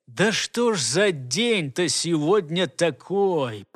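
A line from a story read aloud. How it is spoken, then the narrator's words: Angry words through teeth. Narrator (Russian): процедил рассерженный голос начальника секретной службы из-за спины у капитана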